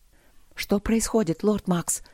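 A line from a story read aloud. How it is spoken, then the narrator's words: Breathless whisper. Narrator (Russian): прошептала Алина, тяжело дыша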